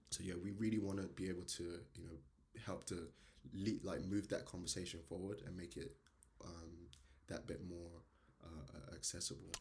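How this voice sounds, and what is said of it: Jamaican accent. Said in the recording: “You have an accent? ... this accent from ... my accent pros people ... born and bred in Jamaica, Kingston, Jamaica”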